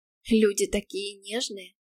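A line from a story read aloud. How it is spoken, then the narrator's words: Sighing from behind. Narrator (Russian): вздохнула уже оказавшаяся за моей спиной спутница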